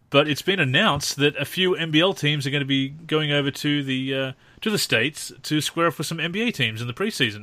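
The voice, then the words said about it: Australian accent. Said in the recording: “especially being Australian, as you can probably tell from our accents”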